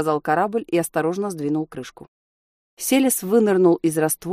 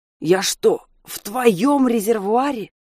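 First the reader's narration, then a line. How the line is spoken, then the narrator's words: Hoarse wheeze. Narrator (Russian): прохрипел Селес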